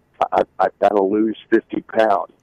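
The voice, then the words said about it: Whispered aside. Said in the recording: “can I whisper this to you?”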